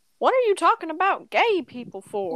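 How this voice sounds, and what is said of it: Put-on southern accent, grandmother voice. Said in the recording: “give my grandmother a southern accent”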